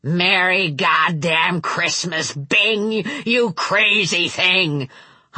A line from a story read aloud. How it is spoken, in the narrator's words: hollered that great booming voice